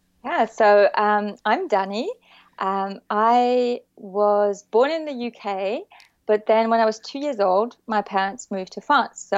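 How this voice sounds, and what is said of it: French-influenced English accent. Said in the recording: “So I grew up in the south of France, hence the accent.”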